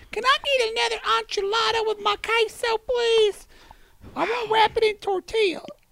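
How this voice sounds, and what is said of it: Imitates another person's voice. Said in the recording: “I sounded like my mother when she says enchilada and tortilla.”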